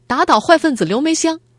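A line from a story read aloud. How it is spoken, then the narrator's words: Student shouting. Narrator (Chinese): 学生在课堂上大喊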